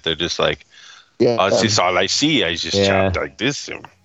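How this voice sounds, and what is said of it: Bad put-on German accent. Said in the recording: “Terrible all German accent. ... It was pretty bad.”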